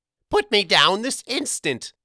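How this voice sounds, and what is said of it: Small mousy creature voice. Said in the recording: “Gergen demanded in a mousy voice.”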